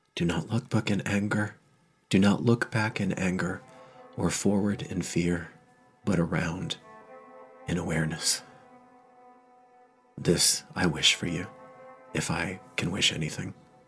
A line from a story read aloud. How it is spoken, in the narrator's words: whispers